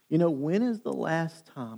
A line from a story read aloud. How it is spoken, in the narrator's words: I asked myself this question